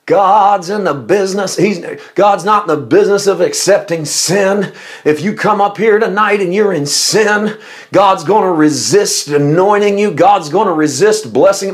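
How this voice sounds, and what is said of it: Old-time preacher voice. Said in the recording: “I got to go into my old time preacher voice.”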